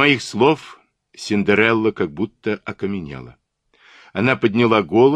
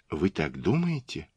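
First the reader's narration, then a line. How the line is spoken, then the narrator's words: Whisper. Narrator (Russian): прошептала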